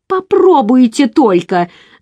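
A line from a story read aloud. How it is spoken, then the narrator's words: Screaming. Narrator (Russian): завопила Джизелла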